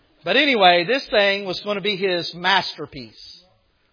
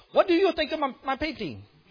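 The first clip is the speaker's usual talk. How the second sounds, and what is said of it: Put-on Italian accent. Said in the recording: “I'm guessing that's his accent, ... I'm thinking he's Italian. That sounded like Italian.”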